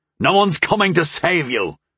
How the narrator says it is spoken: Curlin growled

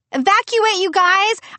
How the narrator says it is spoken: I tried to yell

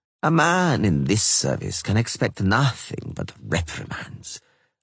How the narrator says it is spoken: Vattier said bitterly

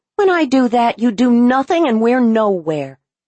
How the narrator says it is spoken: Carol considers this for a nanosecond before angrily retorting

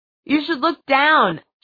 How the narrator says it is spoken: Jay shouted

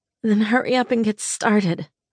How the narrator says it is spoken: I groaned

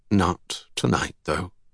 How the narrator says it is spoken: Roderick said calmly

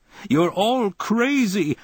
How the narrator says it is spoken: I bellowed

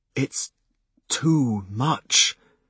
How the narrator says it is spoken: I said brokenly

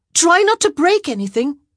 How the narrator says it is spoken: she yelled

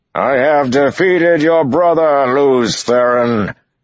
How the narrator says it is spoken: the voice boomed across the battlefield, loud as a crack of thunder

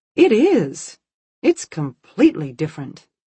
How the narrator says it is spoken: said brightly

